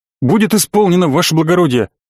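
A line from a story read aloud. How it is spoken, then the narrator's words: Blurted out. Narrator (Russian): выпалил Чиш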